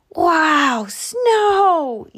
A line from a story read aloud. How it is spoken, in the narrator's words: yelled Groundhog